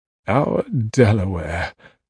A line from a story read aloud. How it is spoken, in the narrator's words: he mumbled happily